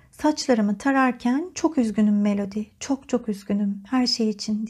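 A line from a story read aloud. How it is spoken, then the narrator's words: Whispered. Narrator (Turkish): diye fısıldadı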